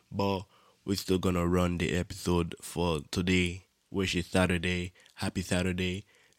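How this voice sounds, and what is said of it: Congested, rough voice. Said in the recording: “I had like a cold or whatever, like my nose was running ... my voice is a little fucked right now”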